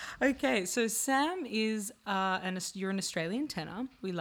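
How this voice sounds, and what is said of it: Usual voice. Nothing is said of it.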